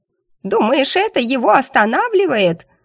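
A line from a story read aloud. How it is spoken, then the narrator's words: Hysterical creature shriek. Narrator (Russian): истерически взвизгнула животина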